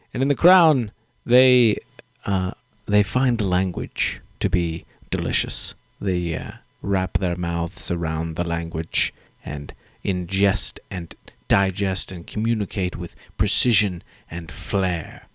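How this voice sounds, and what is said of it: Put-on British accent, crisp articulation. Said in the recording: “I'm talking in a British accent tonight ... They articulate everything”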